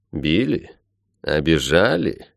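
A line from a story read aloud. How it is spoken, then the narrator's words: Very quiet and hard. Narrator (Russian): Очень тихо и очень жестко спросила госпожа боцман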